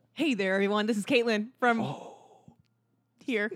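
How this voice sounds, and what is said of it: Bad crackly AM radio DJ voice. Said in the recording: “it's gonna be real crackly ... That was like the worst radio voice you've ever done.”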